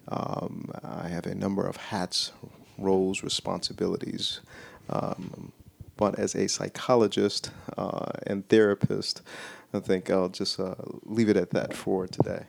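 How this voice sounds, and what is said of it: Smooth late-night radio voice. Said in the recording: “You got your voice on today ... like your podcast voice ... The NPR Midnight Soul”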